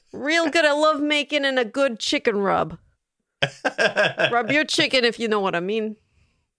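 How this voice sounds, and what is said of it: Put-on Buffalo Great Lakes accent. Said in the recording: “I don't know if that's a Buffalo accent. ... It's very Great Lakes, okay. Buffalo. Like it's very Midwest”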